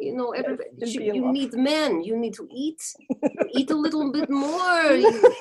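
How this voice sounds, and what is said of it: Put-on Ukrainian accent, landlady character. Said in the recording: “I haven't heard the Ukrainian landlady yet ... Oh, Ukrainian landlady. So good. So much fun to do.”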